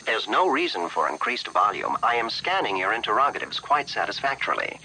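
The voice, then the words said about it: KITT's mid-Atlantic accent. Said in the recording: “accent is called, it's a mid-Atlantic accent, or sometimes it's called a transatlantic accent. ... this mashup of English and British ... gives you this air of sophistication”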